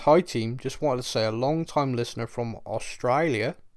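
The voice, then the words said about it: Poorly done put-on Australian accent. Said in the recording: “You butchered the accent.”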